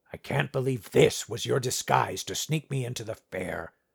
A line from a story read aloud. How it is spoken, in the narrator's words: Clarence grumbled